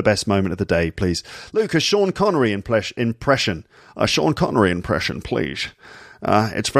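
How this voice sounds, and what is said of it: Usual voice. Nothing is said of it.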